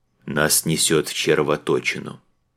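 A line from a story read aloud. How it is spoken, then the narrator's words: Lifeless flat voice. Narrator (Russian): безжизненным голосом сообщил Антоний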